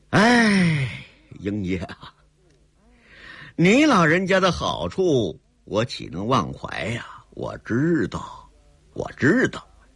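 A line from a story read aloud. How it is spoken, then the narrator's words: Heavy sigh. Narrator (Chinese): 硬下心来长叹一声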